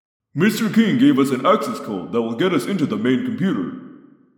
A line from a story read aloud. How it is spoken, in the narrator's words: Jake said, his tone sardonic